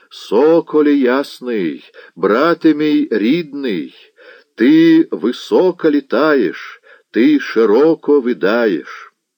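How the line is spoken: Hoarse singing. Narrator (Russian): распевая хриплым голосом

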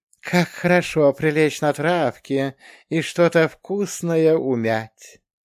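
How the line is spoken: Contented purring cat. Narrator (Russian): Благодушно промурлыкал кот

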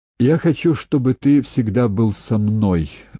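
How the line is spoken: Plain. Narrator (Russian): сказала сеньора

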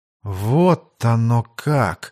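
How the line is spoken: Thoughtful female drawl. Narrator (Russian): задумчиво протянула Даша

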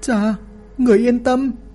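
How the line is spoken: Sobbing. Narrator (Vietnamese): Doãn Tiểu Nguyệt nức nở

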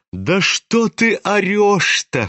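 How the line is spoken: Laughing. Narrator (Russian): хохотал на него Настасья Филипповна

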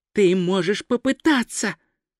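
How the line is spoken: Sighing. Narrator (Russian): Ринсвинд вздохнул

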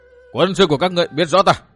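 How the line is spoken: Loud shouting. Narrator (Vietnamese): Dương Viễn hét lên ầm ĩ

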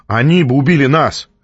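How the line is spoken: Barking. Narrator (Russian): рявкнул я

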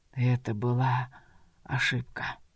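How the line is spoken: Wounded man's whisper. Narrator (Russian): прошептал раненый

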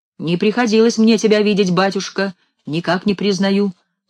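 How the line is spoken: Plain. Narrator (Russian): говорит Иван Сидоров

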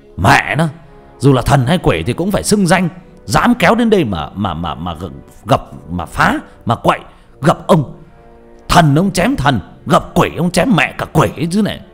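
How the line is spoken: Angry shout. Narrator (Vietnamese): Ông hét lên

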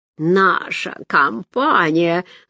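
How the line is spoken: Laughing. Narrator (Russian): засмеялась Машка

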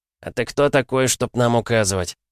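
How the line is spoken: Calm question. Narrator (Russian): спокойно спросил фармацевт

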